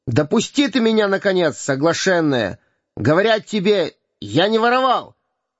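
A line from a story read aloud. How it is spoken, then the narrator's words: Exasperated angry shout. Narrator (Russian): Выйдя, наконец, из терпения, он крикнул ей с гневом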